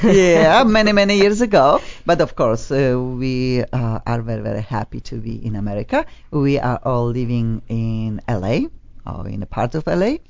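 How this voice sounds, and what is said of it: Polish accent. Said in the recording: “I have also. I have Polish accent.”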